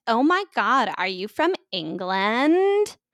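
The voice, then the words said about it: Put-on Valley Girl accent. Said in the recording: “Insert Valley Girl accent.”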